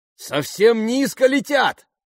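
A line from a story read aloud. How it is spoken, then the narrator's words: Shout. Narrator (Russian): крикнул Джереми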